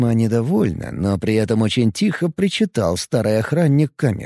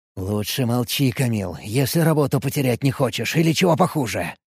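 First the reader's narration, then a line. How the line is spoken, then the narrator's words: Angry hiss. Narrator (Russian): Зло прошипел Тарантус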